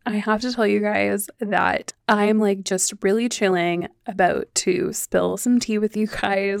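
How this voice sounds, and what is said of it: Hoarse, worn-out, congested voice. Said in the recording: “you can probably tell my voice is like totally shot. My like nose is still allergy driven ... allergy stuffy nose”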